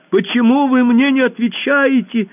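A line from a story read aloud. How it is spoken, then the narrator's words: Very loud shout. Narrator (Russian): совсем громко закричала Алиса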